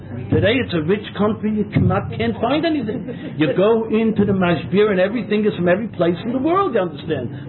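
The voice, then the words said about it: American accent. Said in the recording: “my accent, that it hasn't changed much in 40 years ... He knew that I was an Americaner.”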